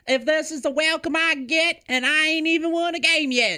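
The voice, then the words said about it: Put-on Southern drawl. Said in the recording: “picked up a Southern drawl ... Wow, you picked up that Southern accent.”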